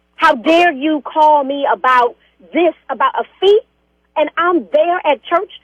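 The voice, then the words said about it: Raised, angry voice. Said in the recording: “Why are you raising your voice at me? ... Did you just raise your voice at me? ... you got to calm down a little bit”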